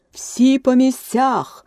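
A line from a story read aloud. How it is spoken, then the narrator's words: Thunderous shout. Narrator (Ukrainian): громовим голосом закричала королева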